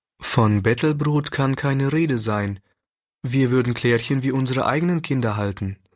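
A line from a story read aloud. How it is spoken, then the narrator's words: Plain. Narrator (German): sagte der Pastor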